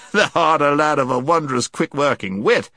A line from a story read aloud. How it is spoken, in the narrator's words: exclaimed the knight